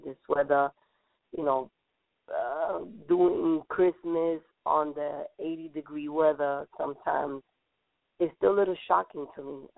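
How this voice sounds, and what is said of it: Slightly sick-sounding voice. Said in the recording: “I'm a little under the weather. You may hear it in my voice, and I may cough a lot today”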